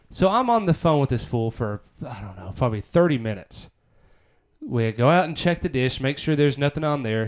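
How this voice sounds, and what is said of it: Noticeable regional accent. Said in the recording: “You hear my accent?”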